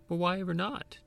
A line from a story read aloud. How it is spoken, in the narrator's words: Jamie asked